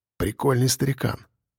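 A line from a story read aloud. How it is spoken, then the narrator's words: Whisper. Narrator (Russian): шепнул Егор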